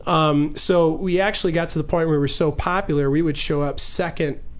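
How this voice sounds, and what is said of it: Chicago accent. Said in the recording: “your accent came out, by the way, when you said ... Popular. ... Chicago. ... Chicago accent. ... I heard it. Popular.”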